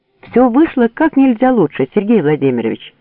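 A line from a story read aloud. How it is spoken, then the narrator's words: Joyful greeting. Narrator (Russian): радостно встретил лейтенант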